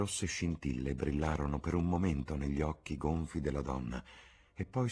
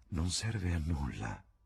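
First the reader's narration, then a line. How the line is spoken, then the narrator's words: Sighing. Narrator (Italian): sospirò Adrian Singleton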